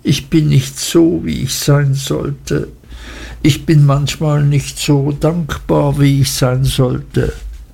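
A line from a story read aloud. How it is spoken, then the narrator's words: Crying out, sobbing bitterly. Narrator (German): rief bitterlich schluchzend aus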